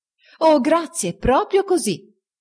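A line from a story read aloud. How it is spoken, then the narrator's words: Exclaimed. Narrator (Italian): esclamò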